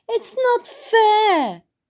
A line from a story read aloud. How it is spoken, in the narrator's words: cried